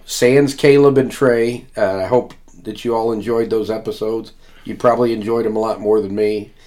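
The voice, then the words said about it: Voice sounds audibly unwell. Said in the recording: “as you might be able to tell by my voice, I am a little under the weather this week”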